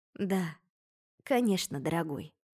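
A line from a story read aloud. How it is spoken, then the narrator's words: Soft, smiling. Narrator (Russian): мягко улыбнулась ему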